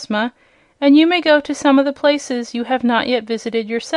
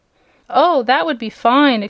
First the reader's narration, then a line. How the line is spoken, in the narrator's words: exclaimed Dorothy eagerly